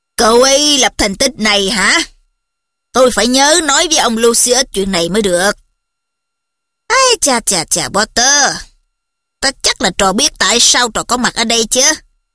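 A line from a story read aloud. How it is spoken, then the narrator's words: Raised praising tone. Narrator (Vietnamese): Ông Fudge lên giọng biểu dương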